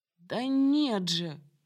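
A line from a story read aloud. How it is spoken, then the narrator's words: Moaning, suddenly hoarse. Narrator (Russian): простонал Ильм вмиг охрипшим голосом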